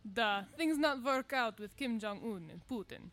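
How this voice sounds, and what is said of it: Put-on foreign accent, broken English. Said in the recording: “We have wrong accent.”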